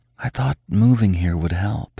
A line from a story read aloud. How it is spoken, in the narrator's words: she whispered, burying her face in Max's thick, silky fur